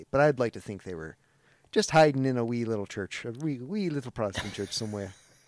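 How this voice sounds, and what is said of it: Poor put-on Irish accent. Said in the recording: “I did a terrible Irish accent. I can do better.”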